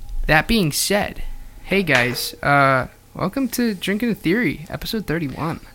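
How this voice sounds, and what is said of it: Usual voice. Nothing is said of it.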